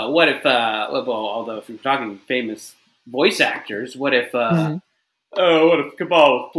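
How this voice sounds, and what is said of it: Usual voice. Nothing is said of it.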